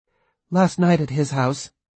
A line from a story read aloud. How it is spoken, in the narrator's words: she answered